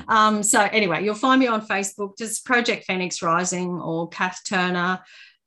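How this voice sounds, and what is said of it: Noticeable non-American accent. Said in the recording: “we can hear your beautiful accent”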